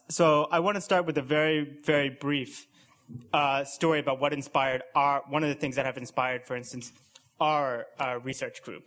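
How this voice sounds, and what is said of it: American accent. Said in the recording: “you can probably tell by my accent that I'm from the US”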